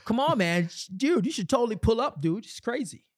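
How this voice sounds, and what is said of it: Put-on white guy accent. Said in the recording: “That's my white accent.”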